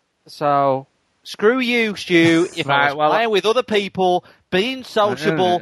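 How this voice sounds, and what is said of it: Imitates another person's voice, badly. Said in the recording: “doing an impression of your impression of Stu. ... Which is just awful. Both of them are terrible.”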